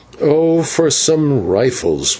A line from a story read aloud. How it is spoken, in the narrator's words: groaned the señor